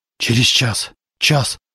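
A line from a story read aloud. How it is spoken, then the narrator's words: Muttering. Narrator (Russian): бормотал Зарубин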